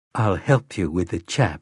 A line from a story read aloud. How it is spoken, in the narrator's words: Susanna replied grimly